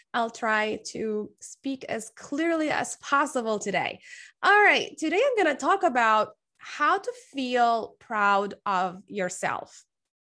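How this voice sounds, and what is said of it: Sick, slightly unclear voice. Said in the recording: “I've been sick for the past week. So you might hear that in my voice. My voice might sound a little funky or not clear enough.”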